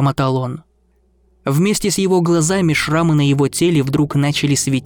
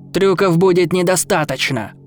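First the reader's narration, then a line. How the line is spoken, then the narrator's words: Gladiator's thundering roar. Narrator (Russian): прогремел гладиатор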